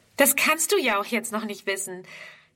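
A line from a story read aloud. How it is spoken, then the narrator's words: Laughing reply. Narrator (German): erwidert Fridrun lachend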